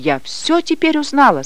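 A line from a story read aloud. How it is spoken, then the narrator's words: Agitated, excited. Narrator (Russian): сказала она взволнованно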